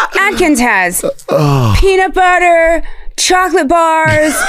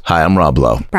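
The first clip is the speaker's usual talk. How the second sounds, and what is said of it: Rob Lowe impression. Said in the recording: “his Rob Lowe impression”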